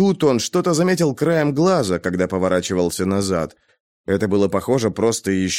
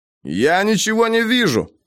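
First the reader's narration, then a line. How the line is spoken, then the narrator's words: Shouted. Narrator (Russian): крикнул он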